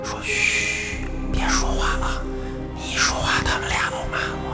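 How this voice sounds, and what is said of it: Very quiet, hushed voice. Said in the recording (Chinese): “就这特小声就说这个”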